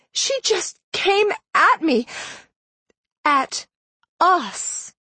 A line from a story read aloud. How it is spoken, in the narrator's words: Madison said shakily